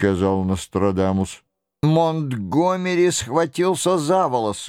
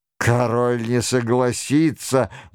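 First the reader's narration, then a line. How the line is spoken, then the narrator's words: Grumbled. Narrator (Russian): буркнул Монтгомери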